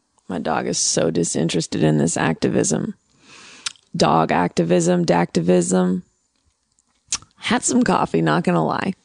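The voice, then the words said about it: Slightly gravelly morning voice. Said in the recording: “my voice is a little gravelly. That's how it is in the morning.”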